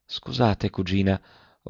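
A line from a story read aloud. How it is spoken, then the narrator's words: Absent-minded murmur. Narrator (Italian): mormorò quasi inconscio dell'ora e del luogo ove si trovava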